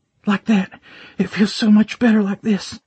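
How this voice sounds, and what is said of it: Panting, breathless delivery. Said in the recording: “she panted, mimicking my breathing”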